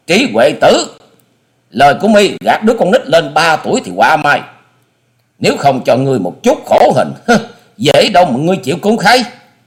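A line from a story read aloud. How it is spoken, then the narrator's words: Furious loud scream. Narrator (Vietnamese): Hà Xà Tiên Tử giận dữ thét to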